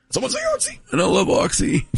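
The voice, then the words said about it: Poor imitation of another person's voice. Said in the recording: “Your fake Lando sounds terrible.”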